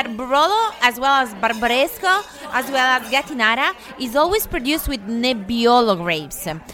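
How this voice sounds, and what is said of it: Italian-accented English. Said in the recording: “You're not from Beverly Hills, right? I can tell from the accent. ... I'm from Piedmont. I've born and raised in Piedmont, Italy.”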